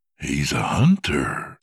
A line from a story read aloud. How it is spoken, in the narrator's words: George said gleefully, then dropped his voice near a whisper